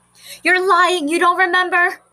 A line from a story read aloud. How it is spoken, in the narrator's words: cried the other children